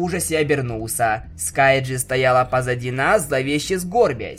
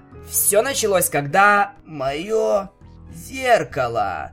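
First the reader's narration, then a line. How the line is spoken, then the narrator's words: Slow creaking sepulchral voice. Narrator (Russian): медленно проскрипел гробовой голос за нами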